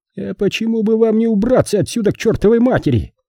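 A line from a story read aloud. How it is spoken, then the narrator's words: Yelling. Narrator (Russian): завопил Пейнтер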